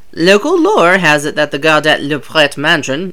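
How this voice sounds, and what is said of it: French-accented pronunciation of name. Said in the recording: “I say everything with a French accent.”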